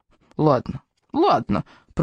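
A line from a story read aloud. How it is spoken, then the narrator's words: Grumbling. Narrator (Russian): проворчал Безубик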